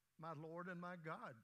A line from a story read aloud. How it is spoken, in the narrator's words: Thomas exclaimed